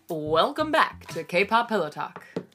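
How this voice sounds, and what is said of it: Announcer voice. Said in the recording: “Are you trying out your announcer voice?”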